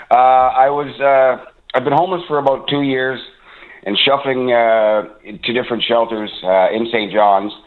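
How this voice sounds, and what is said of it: Non-Newfoundland accent. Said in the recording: “I'm not obviously from Newfoundland, you can tell by the accent”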